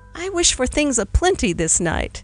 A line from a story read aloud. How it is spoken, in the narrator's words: with a terrific chuckle of mystery